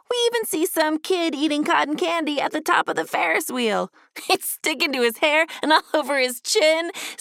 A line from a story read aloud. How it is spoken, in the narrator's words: said Ducky, laughing and getting distracted